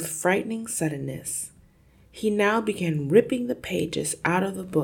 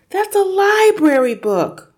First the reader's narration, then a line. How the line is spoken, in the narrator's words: Matilda cried